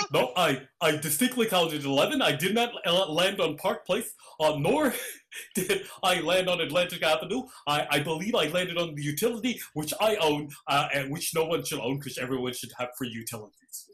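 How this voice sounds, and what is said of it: Bernie Sanders impression. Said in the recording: “I will do my Bernie Sanders impression. My impression will be of him being an asshole while playing Monopoly ... That's my impression of Bernie Sanders.”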